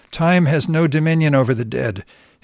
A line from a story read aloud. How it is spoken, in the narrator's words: he snapped with a kind of contemptuous air